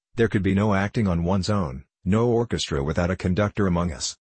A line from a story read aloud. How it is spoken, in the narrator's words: Dreitzer remarked harshly